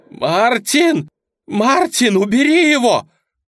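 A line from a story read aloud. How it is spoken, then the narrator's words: Siren's scream. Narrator (Russian): закричала сирена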